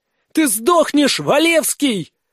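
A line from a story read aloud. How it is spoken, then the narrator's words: Girl screaming. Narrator (Russian): заорала девушка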